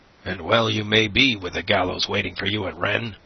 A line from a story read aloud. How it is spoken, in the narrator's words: growled the ferryman